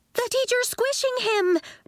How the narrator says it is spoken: Nori cried

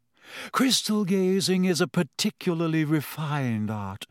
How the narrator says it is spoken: she said dreamily

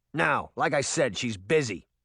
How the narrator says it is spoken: the security guard said roughly

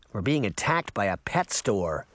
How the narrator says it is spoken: Sabrina grumbled

